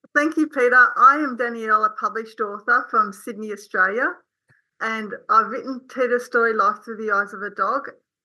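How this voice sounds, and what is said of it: Slight Australian accent. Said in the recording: “she's got a little bit of an Australian accent”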